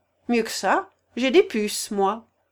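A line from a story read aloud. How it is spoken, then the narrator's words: Cold reply. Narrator (French): répliqua froidement Zacar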